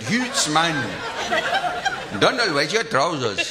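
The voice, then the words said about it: Put-on Glasgow accent. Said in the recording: “I'm so able to do the Glasgow accent so accurately whenever I wish to dip in and out of it ... do the Glasgow accent”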